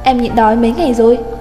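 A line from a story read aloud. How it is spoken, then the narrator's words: Raised voice. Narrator (Vietnamese): cất cao giọng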